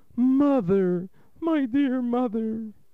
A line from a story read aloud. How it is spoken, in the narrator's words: The boy turned suddenly with one sharp motion and cried